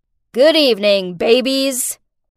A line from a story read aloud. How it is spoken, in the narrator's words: She sneered out